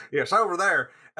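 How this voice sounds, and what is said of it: Attempted Southern accent. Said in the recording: “I think he was Southern... I can't do a Southern accent.”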